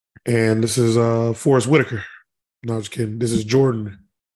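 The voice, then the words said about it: Hoarse, slightly lost voice. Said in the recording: “My voice is a little out... voice is just a little ashy”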